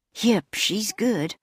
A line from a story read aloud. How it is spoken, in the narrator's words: whispered the caretaker admiringly